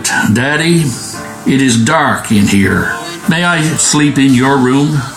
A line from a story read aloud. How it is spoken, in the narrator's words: little daughter, cried out